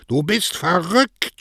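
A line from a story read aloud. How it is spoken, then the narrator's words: Shouting. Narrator (German): schrie Don Cosme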